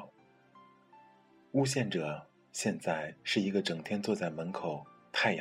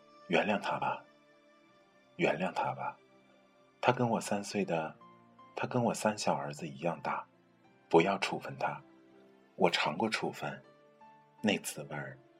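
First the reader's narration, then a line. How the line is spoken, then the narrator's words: Heavy sigh. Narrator (Chinese): 校长长叹一声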